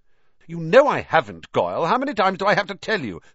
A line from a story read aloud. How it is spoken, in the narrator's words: snapped Malfoy